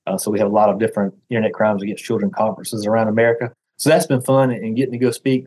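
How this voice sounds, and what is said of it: Deep Southern US accent. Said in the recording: “as you can hear from my accent ... have a slight speech impediment, have this terrible deep Southern accent”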